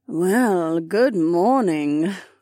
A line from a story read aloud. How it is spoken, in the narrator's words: Kat purred